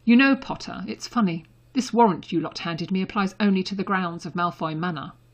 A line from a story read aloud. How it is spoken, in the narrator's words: Draco said icily